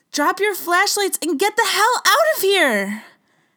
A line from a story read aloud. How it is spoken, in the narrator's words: I screamed